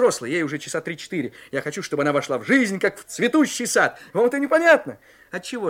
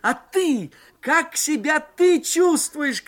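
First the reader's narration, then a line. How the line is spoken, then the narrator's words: Shouting into phone. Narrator (Russian): кричал я в горячую трубку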